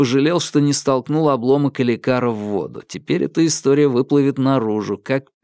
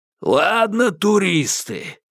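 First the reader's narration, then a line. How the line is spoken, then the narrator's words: Hoarse rasp. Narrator (Russian): прохрипел Берт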